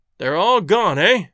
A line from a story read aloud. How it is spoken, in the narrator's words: asked Kyrts from the far end of the common room in a muffled voice